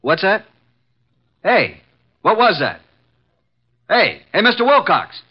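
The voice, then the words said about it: Shouting. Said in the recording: “stop shouting”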